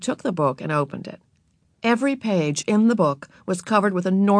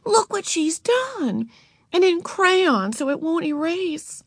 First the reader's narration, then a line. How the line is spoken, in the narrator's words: cried Beezus